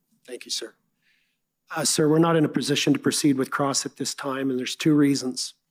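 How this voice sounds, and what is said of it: Hoarse voice from a cold. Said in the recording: “I apologize for my voice. I'm recovering from a cold.”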